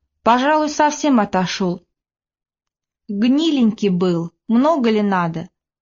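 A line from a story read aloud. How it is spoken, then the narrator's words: Calm speech. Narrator (Russian): Говорил Тихон спокойно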